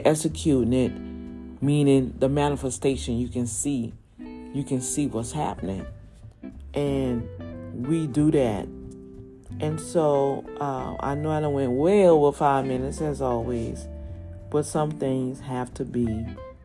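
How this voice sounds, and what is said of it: New Orleans accent. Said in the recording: “the accent that I'm told I have, which I do. I'm native New Orleans, and we do have that accent”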